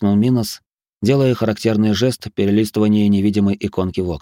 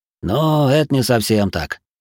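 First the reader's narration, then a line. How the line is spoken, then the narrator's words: Muttering. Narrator (Russian): пробормотал Матиас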